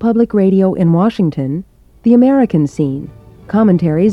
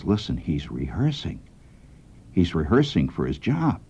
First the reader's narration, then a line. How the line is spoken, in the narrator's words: he whispers to me, he says